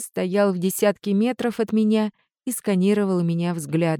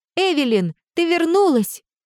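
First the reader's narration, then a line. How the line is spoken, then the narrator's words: Crying out. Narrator (Russian): вскрикнула Ава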